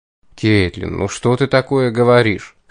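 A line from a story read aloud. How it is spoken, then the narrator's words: Embarrassed, strained words. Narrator (Russian): смущенно выдавил я из себя, когда ко мне вернулся дар членораздельной речи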